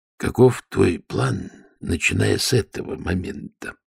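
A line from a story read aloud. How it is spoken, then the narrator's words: Whisper. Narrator (Russian): прошептал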